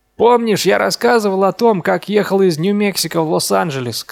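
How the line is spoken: Shouted. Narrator (Russian): крикнул Дин

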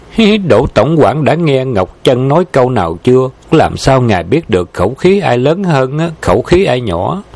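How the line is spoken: Laughing while speaking. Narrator (Vietnamese): Vân Ngọc Chân bật cười nói

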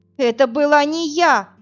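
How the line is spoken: Desperate shout. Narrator (Russian): закричала Инна, понимая, что он ей не верит

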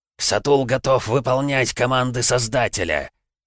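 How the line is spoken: Guttural bestial growl. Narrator (Russian): прорычал король зомби гортанным, похожим на звериный голосом

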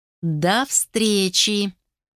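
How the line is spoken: Drawled. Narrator (Russian): протянула Геля

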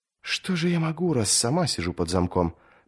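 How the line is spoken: Princess whispering reply. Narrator (Russian): прошептала в ответ принцесса

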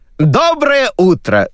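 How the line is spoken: Shout. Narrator (Russian): закричал Сергей

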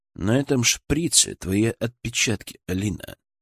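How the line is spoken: Calm retort. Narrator (Russian): спокойно парировал я

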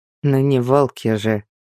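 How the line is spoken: Snorting. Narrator (Russian): хмыкнул Томас

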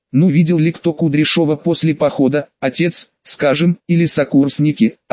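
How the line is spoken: Plain. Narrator (Russian): ответил Федынцев

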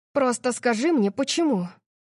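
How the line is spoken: Strained, forced out. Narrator (Russian): выдавила я

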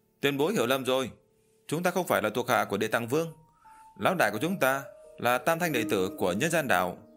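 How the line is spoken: Loud answer. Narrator (Vietnamese): Tam Đầu Quỷ Vương lớn tiếng trả lời

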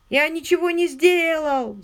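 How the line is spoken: Whining beggar's tone. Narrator (Russian): заскулил тоном, обычным для попрошаек

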